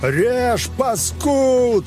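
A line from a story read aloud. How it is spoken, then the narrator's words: Yelling. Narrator (Russian): заорал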